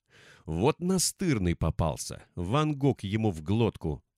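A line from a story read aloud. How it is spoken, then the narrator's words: Cursing through gritted teeth. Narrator (Russian): сквозь зубы выругался Ифрит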